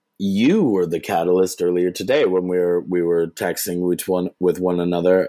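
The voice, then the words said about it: Deep, grave, serious voice. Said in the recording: “as I bring gravitas into my voice”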